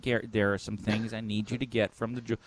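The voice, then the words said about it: Imitates another person's voice. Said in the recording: “my impersonation of my dad, it sounds like me”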